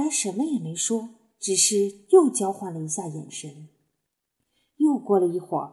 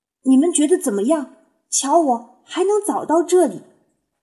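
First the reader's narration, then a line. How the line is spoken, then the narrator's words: Excited shout. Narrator (Chinese): 他兴奋地喊道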